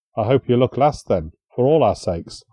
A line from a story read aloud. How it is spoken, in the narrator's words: muttered